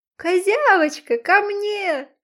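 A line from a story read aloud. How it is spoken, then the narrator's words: Shouting. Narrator (Russian): крикнул цветочек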